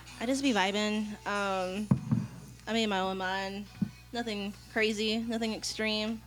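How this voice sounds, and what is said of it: Oklahoma accent. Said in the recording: “Excuse that shitty accent. She's from Oklahoma.”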